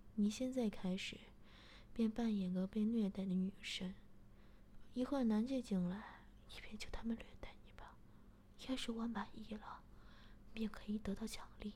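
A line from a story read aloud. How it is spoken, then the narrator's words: Laughing. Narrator (Chinese): 我……便笑着说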